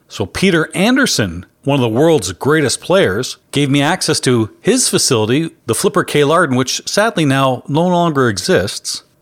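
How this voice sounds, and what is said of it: Thick Canadian accent. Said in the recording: “I'm pretty sure I have a thick Canadian accent”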